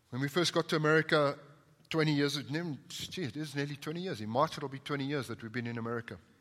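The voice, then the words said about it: Non-American accent. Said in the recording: “You wouldn't say that by my accent ... even if I sound different from y'all”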